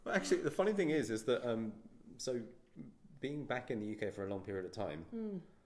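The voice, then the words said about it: Proper English accent. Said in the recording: “does my accent sound that weird? ... the typical proper English accent”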